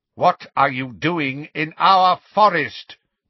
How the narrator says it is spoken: bellowed the hard-faced grey centaur

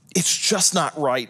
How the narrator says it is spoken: muttered to himself

